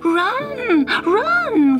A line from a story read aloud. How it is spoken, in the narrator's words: cried Gobbelino